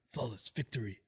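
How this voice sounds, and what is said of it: Imitates a movie character's voice. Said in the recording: “That was a better impression. ... You'll do a Shang Tsung impression”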